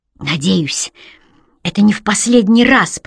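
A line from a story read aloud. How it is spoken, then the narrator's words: Hiss. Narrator (Russian): прошипела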